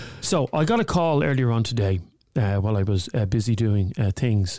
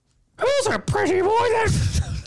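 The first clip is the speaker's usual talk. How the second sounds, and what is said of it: Punch and Judy puppet voice. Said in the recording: “another accent. I can do Punch Judy”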